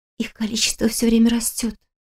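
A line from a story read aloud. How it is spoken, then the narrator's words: Whispered. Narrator (Russian): шепотом объяснила Кристина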